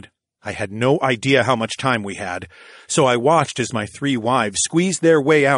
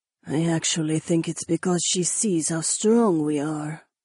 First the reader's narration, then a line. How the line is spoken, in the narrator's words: Jessamine said in a low voice